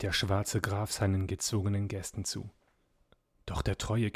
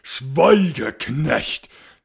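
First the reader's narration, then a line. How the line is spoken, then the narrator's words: Commanding shout. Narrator (German): schrie der schwarze Graf gebieterisch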